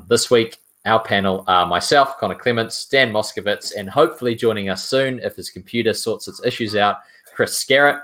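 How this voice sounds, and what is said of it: New Zealand accent. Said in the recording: “in a Kiwi accent rather than an Aussie one”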